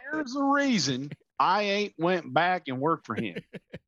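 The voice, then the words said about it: Put-on Southern US accent. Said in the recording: “You have to say that with a Southern accent.”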